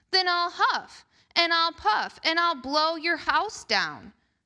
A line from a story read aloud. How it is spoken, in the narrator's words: howled the hungry wolf